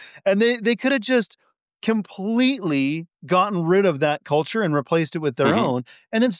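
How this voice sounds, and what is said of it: Usual voice. Nothing is said of it.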